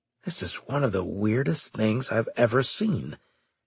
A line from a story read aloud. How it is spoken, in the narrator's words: Straker muttered